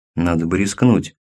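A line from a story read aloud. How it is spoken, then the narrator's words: Quiet speech. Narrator (Russian): негромко проговорил Шпонько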